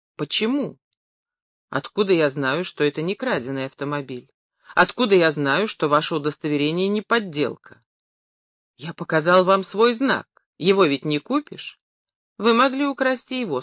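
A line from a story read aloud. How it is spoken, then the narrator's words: Calm patrolman. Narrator (Russian): спокойно сказал патрульный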